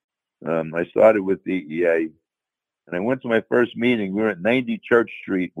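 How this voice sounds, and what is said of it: New York accent. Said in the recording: “as you can tell from my accent, I'm from New York”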